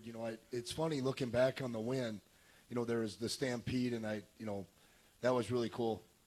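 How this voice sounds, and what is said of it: Voice sounds unwell. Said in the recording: “excuse my voice, I'm a little bit under the weather”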